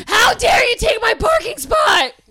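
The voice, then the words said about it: Angry impression of a friend. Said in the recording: “my impression of Mitch”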